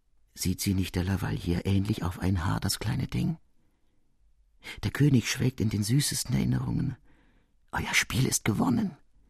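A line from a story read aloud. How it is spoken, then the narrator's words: Soft lisping whisper. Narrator (German): Leise lispelte die Maintenon der Scuderie zu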